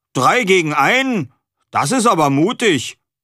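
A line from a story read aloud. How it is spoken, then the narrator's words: Called out. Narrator (German): rief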